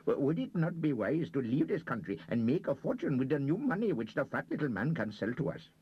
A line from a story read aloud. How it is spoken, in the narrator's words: said his companion urgently